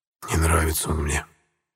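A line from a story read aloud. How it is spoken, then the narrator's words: Whisper. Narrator (Russian): шепнул я товарищам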